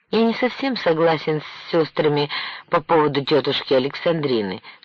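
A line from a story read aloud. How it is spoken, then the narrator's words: Plain. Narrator (Russian): сказала Александра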